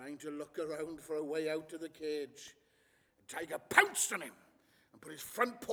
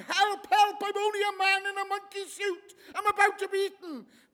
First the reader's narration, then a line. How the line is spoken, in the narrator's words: The man began to scream out of the ape's costume